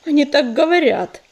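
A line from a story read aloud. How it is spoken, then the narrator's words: Repeat with sigh. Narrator (Russian): повторил ежевика и глубоко вздохнул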